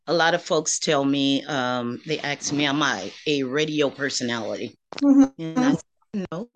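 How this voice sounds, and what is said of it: Accent like a Georgia native. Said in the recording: “You sound just like my auntie in Georgia ... y'all got that same kind of accent ... you sound just like her ... So her accent picked up, and you sound like identical to her.”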